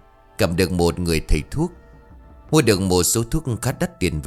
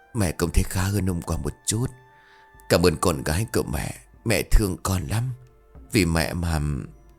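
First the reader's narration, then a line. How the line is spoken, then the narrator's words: Weak faint whisper. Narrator (Vietnamese): Bà Hiền đáp bằng giọng thều thào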